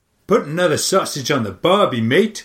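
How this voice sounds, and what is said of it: Poor attempt at Australian accent. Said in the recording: “My Australian accent is so bad ... I really can't do an Australian accent ... It's so jazzy. ... Are you Belgian?”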